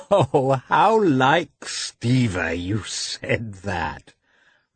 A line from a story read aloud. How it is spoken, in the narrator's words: remarked Dolly, laughing